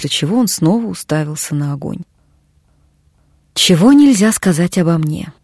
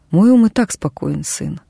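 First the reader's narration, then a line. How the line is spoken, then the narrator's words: Quiet. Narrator (Russian): тихо произнес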